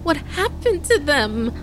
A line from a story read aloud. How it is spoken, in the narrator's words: Caden stammered through her tears